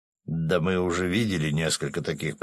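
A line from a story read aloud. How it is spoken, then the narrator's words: Grumbling. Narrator (Russian): проворчал Свят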